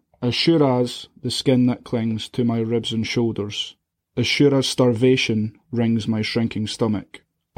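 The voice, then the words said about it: Reading with a noticeable accent. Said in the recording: “excuse the accent.”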